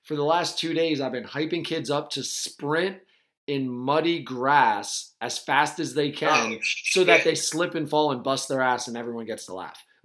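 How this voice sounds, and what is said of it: Slightly hoarse, coarse voice. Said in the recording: “my voice is a little coarse”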